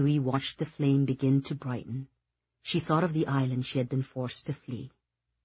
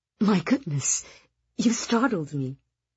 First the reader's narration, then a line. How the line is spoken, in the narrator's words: gasped